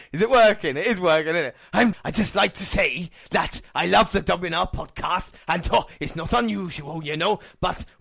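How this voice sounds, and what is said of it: Poor impression of another person's voice. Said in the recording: “Was definitely Tom Jones as well... That was an awful impersonation.”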